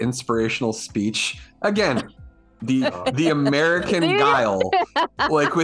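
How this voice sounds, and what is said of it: Usual voice. Nothing is said of it.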